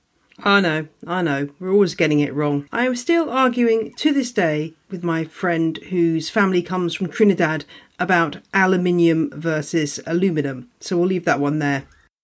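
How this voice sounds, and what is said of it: British English accent. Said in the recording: “Americans say they love my accent ... as we British say”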